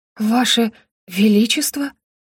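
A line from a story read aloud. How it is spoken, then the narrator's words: Astonished breathless gasp. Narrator (Russian): выдохнула Роза, не зная, чему конкретно удивляться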